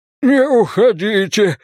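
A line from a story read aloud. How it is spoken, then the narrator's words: Pleading. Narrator (Russian): взмолился Боллигер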